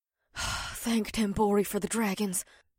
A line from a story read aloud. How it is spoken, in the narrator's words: Batari muttered under her breath